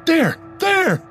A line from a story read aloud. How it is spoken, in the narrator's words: The young man across the river was practically screaming